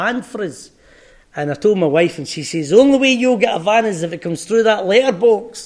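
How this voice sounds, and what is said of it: Usual voice. Nothing is said of it.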